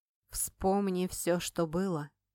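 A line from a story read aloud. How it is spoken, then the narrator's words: Quiet speech. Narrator (Russian): говорила ему негромко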